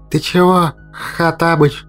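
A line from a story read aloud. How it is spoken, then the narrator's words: Indignant wheeze. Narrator (Russian): возмущенно просипел Мимар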